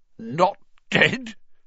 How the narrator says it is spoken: choked Filch

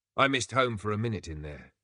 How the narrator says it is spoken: she said

